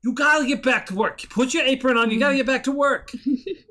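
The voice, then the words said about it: Brooklyn-style accent, yelling line cook. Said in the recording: “I don't know what that voice was, but it was not right. ... That was not Jennifer Coolidge. ... That's the cook guy, the line cook that was yelling at her when she was leaving. ... Brooklyn style accent, because that's the other voice I can do.”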